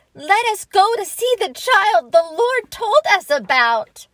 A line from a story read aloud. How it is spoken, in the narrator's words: we began to shout